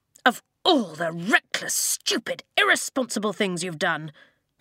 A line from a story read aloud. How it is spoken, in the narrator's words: Tompkin spat